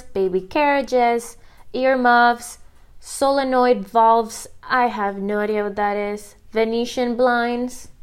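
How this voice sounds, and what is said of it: Thick accent. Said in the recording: “my accent just got so much thicker”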